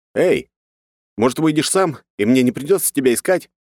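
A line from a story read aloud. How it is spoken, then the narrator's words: Loud question. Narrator (Russian): громко спрашиваю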